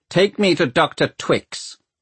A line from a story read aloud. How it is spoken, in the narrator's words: he barks